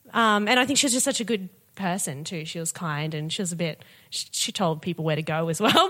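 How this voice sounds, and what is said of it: British accent. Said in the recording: “you have a beautiful British accent”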